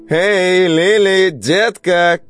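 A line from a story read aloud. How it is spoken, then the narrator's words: Woman shouting. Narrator (Russian): крикнула какая-то женщина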